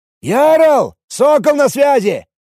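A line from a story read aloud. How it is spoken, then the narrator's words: Shouted. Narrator (Russian): крикнул мне Потешкин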